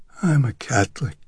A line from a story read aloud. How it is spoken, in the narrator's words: the derelict mumbled